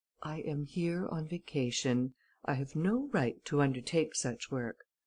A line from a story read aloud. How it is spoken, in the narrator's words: This offer disconcerted Ganimard, who replied calmly